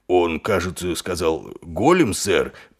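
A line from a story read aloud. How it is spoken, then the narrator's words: Mumbling. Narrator (Russian): пробормотал Колон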